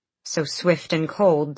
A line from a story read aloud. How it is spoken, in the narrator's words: the stones groaned